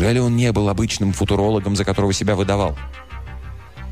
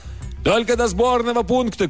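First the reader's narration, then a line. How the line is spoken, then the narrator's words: Shouting back. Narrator (Russian): крикнул в ответ профессор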